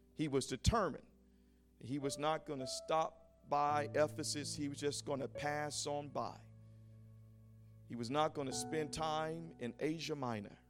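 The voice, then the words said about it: East Coast American accent. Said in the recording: “I just heard a little bit of my East Coast accent coming out”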